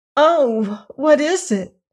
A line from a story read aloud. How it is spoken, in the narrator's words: cried Dorothy